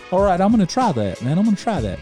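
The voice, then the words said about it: Put-on thick Southern accent. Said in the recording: “his accent's not that thick. I got him sounding like Hank from King of the Hill. That is not what he sounds like. It's just the only Southern accent I do.”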